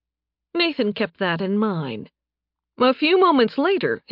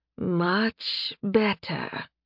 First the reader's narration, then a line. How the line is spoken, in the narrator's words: she purred